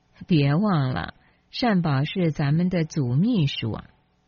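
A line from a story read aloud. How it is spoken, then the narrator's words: Chuckling. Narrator (Chinese): 于南呵呵笑着说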